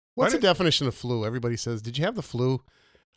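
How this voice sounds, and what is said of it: Deep, sick-sounding voice. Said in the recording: “How do you like how deep my voice is? Because I'm sick.”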